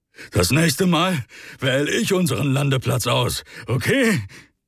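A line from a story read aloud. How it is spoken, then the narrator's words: Breathless. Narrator (German): Atemlos hob Rick sein Kommen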